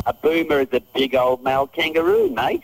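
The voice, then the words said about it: Australian accent. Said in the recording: “a guy with an Australian accent”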